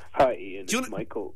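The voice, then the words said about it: Silly put-on voice. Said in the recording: “why are you talking in a silly voice?”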